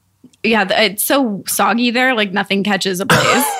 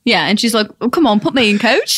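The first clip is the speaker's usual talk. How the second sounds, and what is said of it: Put-on accent. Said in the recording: “that accent is amazing.”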